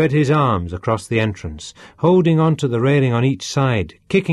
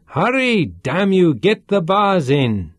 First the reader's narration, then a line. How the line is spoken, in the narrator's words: he shouted